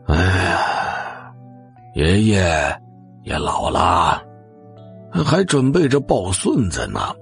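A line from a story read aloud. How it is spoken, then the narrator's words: Old man sighing. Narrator (Chinese): 老爷子叹了口气，继续说道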